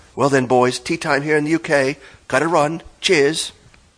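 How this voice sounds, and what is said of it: Strong, striking accent. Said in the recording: “What an accent!”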